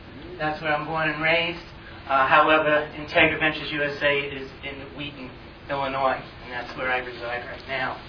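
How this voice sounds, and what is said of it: New York accent. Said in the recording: “my accent is from New York”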